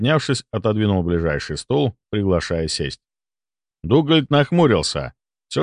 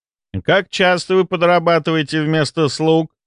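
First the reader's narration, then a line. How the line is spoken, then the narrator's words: Overly loud question. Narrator (Russian): чересчур громко спросил наследник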